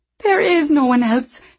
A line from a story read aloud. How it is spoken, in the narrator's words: she pleaded